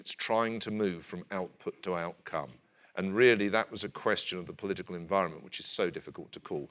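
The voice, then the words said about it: Distinctive accent. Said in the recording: “I, too, enjoy your accent”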